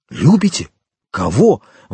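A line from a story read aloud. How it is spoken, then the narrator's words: Exclaimed. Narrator (Russian): воскликнул Монте-Кристо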